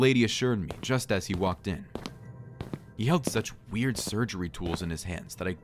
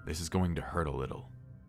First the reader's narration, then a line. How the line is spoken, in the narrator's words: the doctor muttered